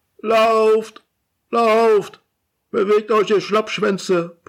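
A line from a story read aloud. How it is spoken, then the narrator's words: Bellowing at the TV. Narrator (German): brüllt weiter den Fernseher an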